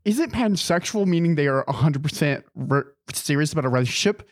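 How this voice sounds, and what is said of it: Nerdy imitation of another person's voice. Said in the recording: “That's your Christian impression? ... I got to make him look nerdy.”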